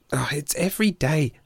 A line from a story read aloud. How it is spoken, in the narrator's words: she sighed